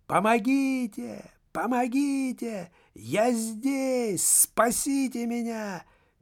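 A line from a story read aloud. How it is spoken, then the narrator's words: Screaming for help. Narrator (Russian): кричала она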